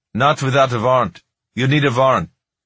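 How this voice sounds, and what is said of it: Man's voice, Middle Eastern accent. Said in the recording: “a man's voice with a Middle Eastern accent”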